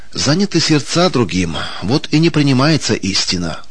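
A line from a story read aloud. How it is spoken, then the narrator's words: Sighed. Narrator (Russian): вздохнул Сергей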